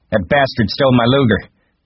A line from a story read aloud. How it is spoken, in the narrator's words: he shouted